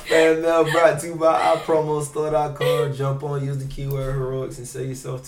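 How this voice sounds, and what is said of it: Polished radio announcer voice. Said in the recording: “This man put his radio voice on every time. I'm telling you, you have a great voice too.”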